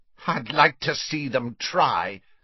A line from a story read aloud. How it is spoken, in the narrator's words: sneered Riddle